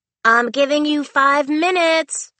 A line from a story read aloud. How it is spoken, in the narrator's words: hollered Audrey, her voice muffled behind the door